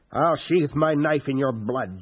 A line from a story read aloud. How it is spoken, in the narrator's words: Jameis snarled